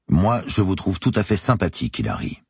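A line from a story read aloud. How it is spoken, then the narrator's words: Neutral tone. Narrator (French): ai-je dit d'un ton neutre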